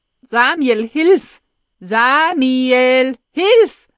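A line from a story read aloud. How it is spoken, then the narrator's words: Desperate shout over loudspeaker. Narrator (German): schreit es verzweifelt aus dem Lautsprecher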